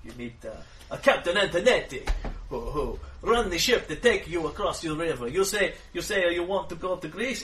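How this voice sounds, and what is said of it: Big European, Italian-style put-on accent. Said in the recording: “I don't have a Greek accent, so I talk in a big European sort of Italian voice like this.”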